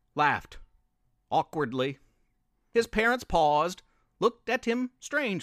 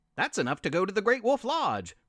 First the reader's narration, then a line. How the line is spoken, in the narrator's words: Sylvester's father exclaimed